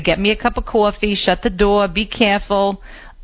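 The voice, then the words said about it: Put-on New Jersey accent. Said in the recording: “her Jersey accent ... she never lost that accent ... she still talked like this”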